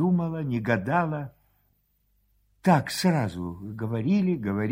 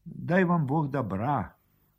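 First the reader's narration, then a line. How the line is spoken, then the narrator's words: Quiet and tender. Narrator (Russian): тихо и ласково сказала барыня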